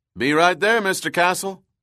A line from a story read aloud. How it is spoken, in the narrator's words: Roy called out from inside the vault